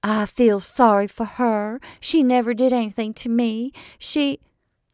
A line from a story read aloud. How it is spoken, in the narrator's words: Tessie spoke, her voice penetrating the staccato fragments all about her